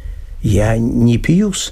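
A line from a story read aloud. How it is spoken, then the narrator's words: Priest mumbling, embarrassed. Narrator (Russian): с замешательством пробормотал священник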